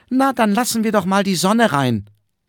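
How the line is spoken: Called out. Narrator (German): der kleine Herr Paul rief

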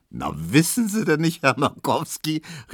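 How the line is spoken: Calling out laughing. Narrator (German): rief Tesch lachend

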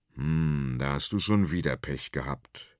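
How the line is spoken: Deep grumbling male voice. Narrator (German): brummt der große Konrad

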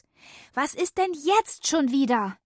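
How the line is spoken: Excited call. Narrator (German): rief ich aufgeregt

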